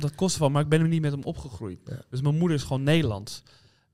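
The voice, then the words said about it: Amsterdam Dutch accent. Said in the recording (Dutch): “Amsterdamse accent, man. Je hebt hem dus wel.”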